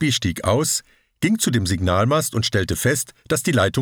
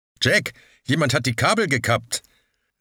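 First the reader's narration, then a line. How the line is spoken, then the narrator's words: Called out. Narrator (German): rief er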